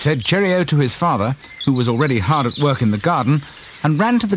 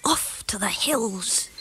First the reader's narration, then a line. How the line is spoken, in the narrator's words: he murmured happily